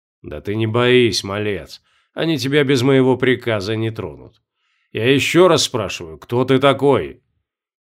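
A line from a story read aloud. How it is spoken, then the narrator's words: Threatening man's question. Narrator (Russian): задал мужчина вопрос, на этот раз уже угрожающим тоном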